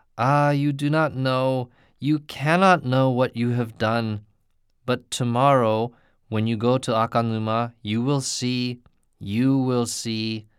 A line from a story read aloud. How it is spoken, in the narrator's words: she exclaimed